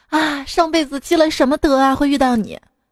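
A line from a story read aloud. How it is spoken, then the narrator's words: Lovestruck sigh. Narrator (Chinese): 人呐，热恋的时候，常常感叹道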